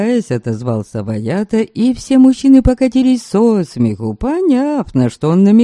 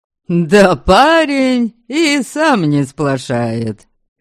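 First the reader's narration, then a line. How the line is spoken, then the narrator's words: Laughing. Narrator (Russian): Хохотал Белатур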